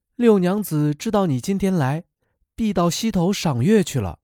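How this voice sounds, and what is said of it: Soft, quiet voice. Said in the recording (Chinese): “小声答道”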